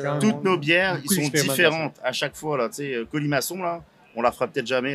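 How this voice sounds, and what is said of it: French accent from France. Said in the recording (French): “À la base, je suis français. Je suis néo-québécois, on va dire. ... Ton accent te trahit.”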